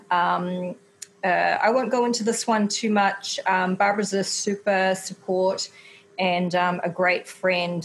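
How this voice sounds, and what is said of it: Speaker's own noticeable accent. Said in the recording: “with my accent, that's probably not coming out so well”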